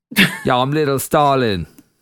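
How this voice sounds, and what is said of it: Put-on rapper voice. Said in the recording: “sounds like a rapper ... I don't know why I did a voice there.”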